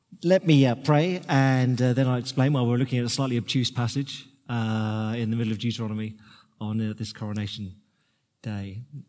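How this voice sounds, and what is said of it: Slightly croaky voice. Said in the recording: “My voice may be intermittent this morning. It's a little croaky”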